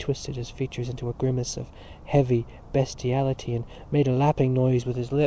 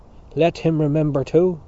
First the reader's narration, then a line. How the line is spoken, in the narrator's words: cried Mr